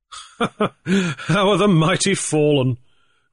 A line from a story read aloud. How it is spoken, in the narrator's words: Grief laughed